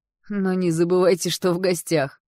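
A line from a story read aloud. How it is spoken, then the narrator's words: Shouted. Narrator (Russian): выкрикнул Кэл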